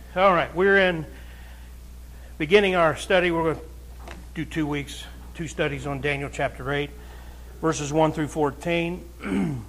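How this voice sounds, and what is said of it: Slightly strained, weak projecting voice. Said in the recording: “my voice is a little off ... it makes it a little harder for me to project”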